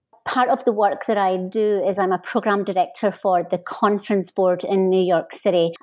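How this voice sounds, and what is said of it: Scottish accent. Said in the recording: “your listeners will know from my accent that I'm not originally from here. I'm originally from Scotland.”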